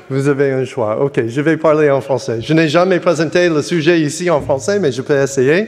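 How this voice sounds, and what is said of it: Strong American accent in French. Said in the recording (French): “je peux parler en français avec un fort accent américain ... I can speak in English with a strong American accent.”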